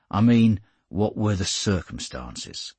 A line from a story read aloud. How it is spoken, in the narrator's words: The inspector said dryly